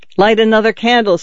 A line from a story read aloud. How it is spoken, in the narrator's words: said Juan, loudly, in too resolute, too sharp a tone